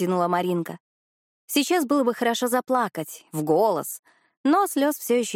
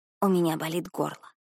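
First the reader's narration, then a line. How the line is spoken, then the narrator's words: Whispered. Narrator (Russian): прошептала Маринка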